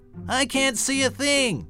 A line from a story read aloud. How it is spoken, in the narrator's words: yelled Pip